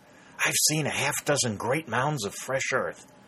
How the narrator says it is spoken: Warner said in a whisper

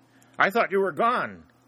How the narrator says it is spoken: Harry shouted

